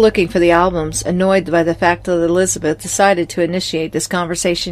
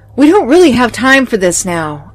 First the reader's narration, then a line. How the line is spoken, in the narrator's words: I yelled